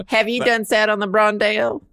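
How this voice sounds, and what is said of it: Put-on Southern American accent. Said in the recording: “I like to say it like Brondel, like with a southern accent.”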